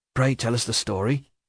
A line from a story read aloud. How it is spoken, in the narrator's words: says Watt, in a half-whisper